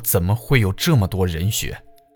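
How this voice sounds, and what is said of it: Trembling, shaky voice. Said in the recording (Chinese): “用发抖的声音说”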